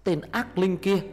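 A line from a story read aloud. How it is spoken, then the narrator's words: Shout from behind. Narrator (Vietnamese): tiếng Cám hét lên từ phía sau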